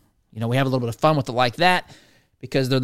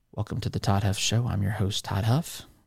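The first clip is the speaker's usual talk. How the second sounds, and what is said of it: Boring public radio host voice. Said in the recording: “I sometimes do my NPR voice like this ... they're the most boring hosts in the history of media”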